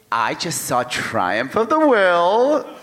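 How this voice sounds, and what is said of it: Teenage girl character voice. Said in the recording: “What was that voice? Who was that character? ... That was a Brigsby Bear voice. ... It was like a teenage girl who just saw, who loves Leni Riefenstahl. That's my impression of a teenage girl”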